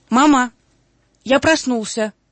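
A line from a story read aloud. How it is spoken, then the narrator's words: Shout. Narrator (Russian): крикнул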